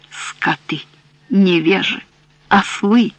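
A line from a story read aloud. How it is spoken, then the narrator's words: Repeated through tears. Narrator (Russian): Он повторял сквозь слезы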